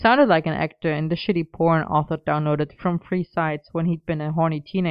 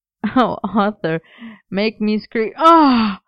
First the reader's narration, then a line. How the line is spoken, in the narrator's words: Merlin's laughter hiccuped into a gasp